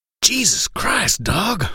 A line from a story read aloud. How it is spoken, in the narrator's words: growled